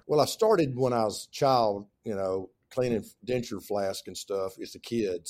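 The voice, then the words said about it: Southern US accent. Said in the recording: “Your accent tells me you're from the South. ... A little bit Southern.”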